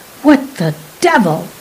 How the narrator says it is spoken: He snapped involuntarily

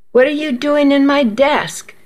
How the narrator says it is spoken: Miss Weaver demanded in a loud voice

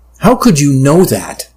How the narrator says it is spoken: I asked, feeling my voice rise

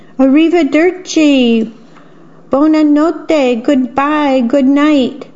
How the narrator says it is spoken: Strega Nona and her two helpers called out

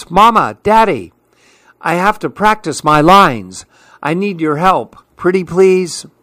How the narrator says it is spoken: shouts

